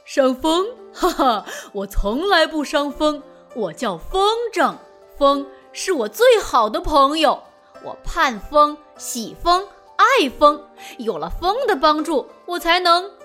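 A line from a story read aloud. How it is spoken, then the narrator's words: Hearty chuckle, big centipede. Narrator (Chinese): 大蜈蚣呵呵一笑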